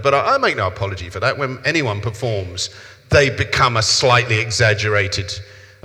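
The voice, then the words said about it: South London English accent. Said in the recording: “my accent got a little bit more cockney-mockney ... my accent is South London”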